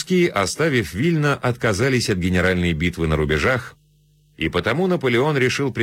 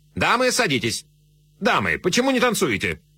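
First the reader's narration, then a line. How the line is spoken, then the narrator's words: Sharp command. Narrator (Russian): резко командуя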